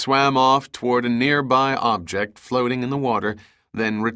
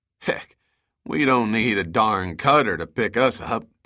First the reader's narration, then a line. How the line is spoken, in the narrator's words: Dahlgren suddenly said and chuckled